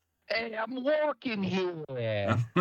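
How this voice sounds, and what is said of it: Put-on Brooklyn accent. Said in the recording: “with like a Brooklyn accent.”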